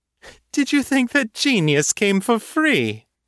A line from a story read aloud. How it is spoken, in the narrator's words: the fairy asked, mocking